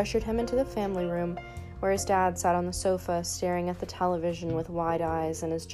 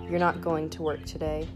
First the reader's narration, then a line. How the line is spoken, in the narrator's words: his father stated matter-of-factly in a stern, serious voice